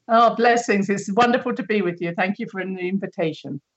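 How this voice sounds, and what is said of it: British accent. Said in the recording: “You sound like you're from Britain originally”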